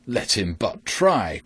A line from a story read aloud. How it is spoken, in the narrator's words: cried the tinker